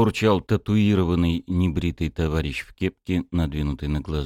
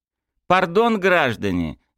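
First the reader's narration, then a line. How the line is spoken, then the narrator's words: Laughing driver. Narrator (Russian): засмеялся сетой водитель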